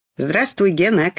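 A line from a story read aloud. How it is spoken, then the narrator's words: Shouting. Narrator (Russian): крикнул Чебурашка крокодилу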